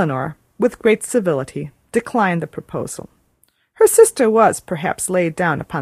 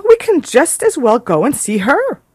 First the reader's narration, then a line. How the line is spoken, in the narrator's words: cried Miss Steele